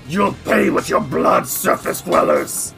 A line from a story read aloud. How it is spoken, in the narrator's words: snarls and says